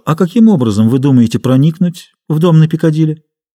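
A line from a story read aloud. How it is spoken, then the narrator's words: Calm. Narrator (Russian): Профессор спокойно сказал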